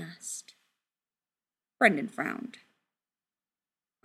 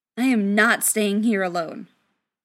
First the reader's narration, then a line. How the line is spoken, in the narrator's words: Brendan said firmly